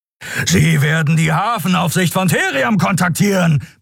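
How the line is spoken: Roaring. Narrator (German): brüllte Keru

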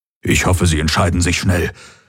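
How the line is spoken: Nervous murmur. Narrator (German): murmelte Hox und schluckte

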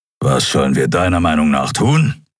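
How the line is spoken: Growling. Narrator (German): knurrte er schließlich

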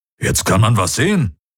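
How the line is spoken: Grumbling. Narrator (German): brummte Hubert

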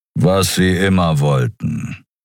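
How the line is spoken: Growled. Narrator (German): knurrte Kero

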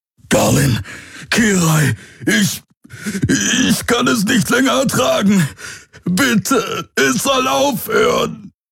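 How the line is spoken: Roaring again. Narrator (German): Wieder brüllte er

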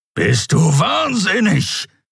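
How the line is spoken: Growled. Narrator (German): knurrte der Skrier

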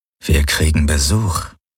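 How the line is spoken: Murmured. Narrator (German): murmelte er

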